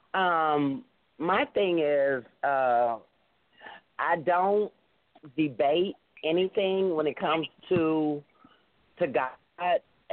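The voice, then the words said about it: Rough voice, sick with cold. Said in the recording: “I'm trying to get over a cold, so I'm like my voice is, ... bad”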